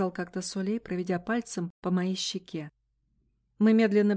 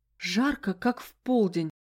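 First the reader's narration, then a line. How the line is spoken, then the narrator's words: Moaning. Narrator (Russian): простонала я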